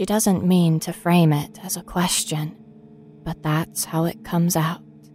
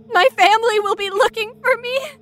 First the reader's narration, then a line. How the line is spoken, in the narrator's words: Michelle ... screaming